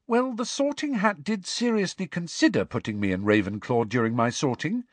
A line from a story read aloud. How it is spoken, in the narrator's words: said Hermione brightly